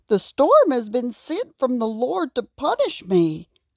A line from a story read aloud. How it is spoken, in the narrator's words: cried Jonah